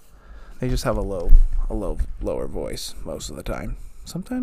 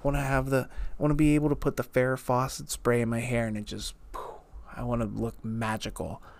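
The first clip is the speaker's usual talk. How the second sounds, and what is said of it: Child voice, like a mouthful of gum. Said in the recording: “imitating a 6-year-old... That was not a very good impression, because 6-year-olds don't talk like they have a mouthful of gum”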